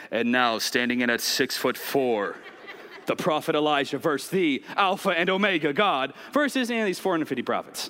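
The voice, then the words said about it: Wrestling announcer voice. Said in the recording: “WWE announcer voice.”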